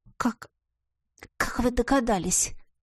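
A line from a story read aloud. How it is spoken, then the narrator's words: Nervous mutter. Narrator (Russian): пробормотала я, нервно дернув головой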